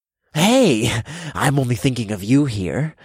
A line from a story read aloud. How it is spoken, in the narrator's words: I chuckled